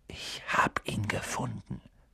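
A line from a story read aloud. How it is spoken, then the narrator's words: Whisper. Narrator (German): flüsterte er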